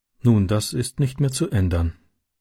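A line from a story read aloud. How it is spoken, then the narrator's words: Sad. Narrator (German): sagte sie traurig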